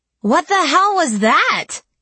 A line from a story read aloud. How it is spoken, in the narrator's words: I exclaimed